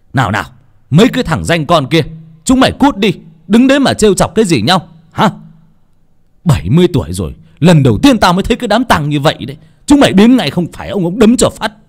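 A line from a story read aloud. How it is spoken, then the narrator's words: Angry loud scolding. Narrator (Vietnamese): Ông Xuân tức giận quát tháo ầm ĩ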